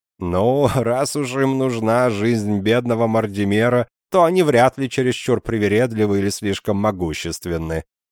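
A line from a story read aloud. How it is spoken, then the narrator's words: Laughing. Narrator (Russian): засмеялся я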